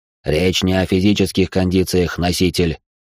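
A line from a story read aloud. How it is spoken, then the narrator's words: Snorting dragon. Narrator (Russian): фыркнул дракон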